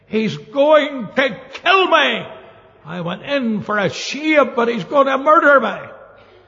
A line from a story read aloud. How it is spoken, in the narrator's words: ran down the street shouting